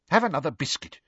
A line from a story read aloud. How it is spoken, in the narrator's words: said irritably